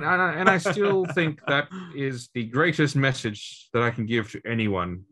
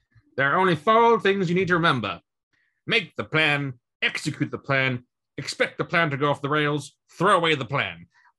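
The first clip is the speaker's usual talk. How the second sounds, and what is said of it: Poor imitation of a fictional character. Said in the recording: “I apologize for my terrible Leonard Snart accent.”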